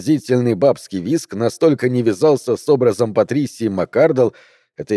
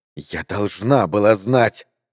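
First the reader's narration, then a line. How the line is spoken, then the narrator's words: Breathed out. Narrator (Russian): выдохнула она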